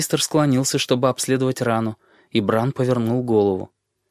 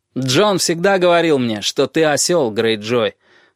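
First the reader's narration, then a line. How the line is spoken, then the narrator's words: Loud reply. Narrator (Russian): громко отвечал Роб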